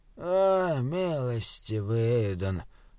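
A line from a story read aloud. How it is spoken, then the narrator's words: Moaning. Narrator (Russian): простонал шут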